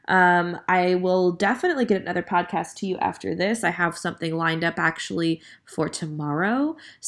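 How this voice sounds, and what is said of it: Tired, scruffy, worn-out voice. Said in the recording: “You can hear in my voice that I am tired and a little bit like, you know, scruffy because, you know, you blow your voice out pretty quick when you're doing that many shows in a row.”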